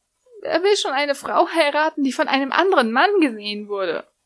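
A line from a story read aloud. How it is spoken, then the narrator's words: Wailing, lamenting. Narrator (German): jammerte Lucy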